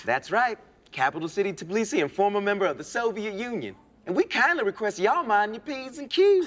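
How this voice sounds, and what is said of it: Put-on accent. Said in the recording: “accent”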